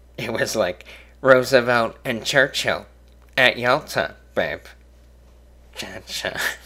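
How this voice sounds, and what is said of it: Imitates another person's voice. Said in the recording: “Don't know why I'm talking like this. Starting to sound like a terrible impression of Dennis Miller ... That is the worst impression I've ever done”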